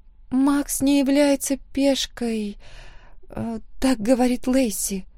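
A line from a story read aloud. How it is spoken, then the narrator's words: Thoughtful murmur. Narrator (Russian): задумчиво пробормотала Эмма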